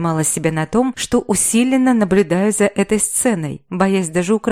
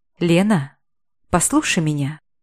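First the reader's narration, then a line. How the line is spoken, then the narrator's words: Quiet but clearly audible. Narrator (Russian): Вдруг тихо, но во всеуслышание произнес Фет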